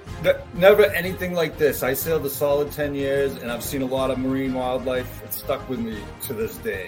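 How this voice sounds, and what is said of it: Boston accent. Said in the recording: “the awesome Boston accent”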